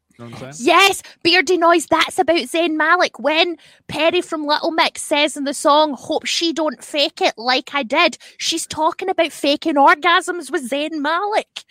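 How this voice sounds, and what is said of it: Scottish accent. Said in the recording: “I'm saying it in a Scottish accent?”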